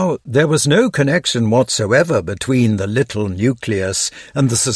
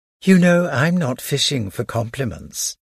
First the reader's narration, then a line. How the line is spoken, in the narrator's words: replied Odette in an affected tone